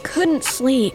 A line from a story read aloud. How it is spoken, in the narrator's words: he said with a yawn